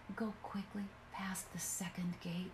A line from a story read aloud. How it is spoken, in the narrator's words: whispered his wife